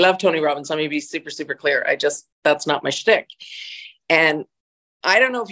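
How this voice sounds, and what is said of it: Usual voice. Nothing is said of it.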